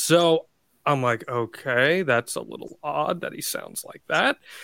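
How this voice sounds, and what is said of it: Usual voice. Nothing is said of it.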